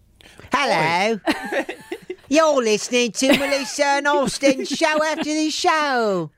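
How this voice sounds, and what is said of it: Put-on English accent. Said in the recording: “What happens if we do the whole podcast in an English accent?”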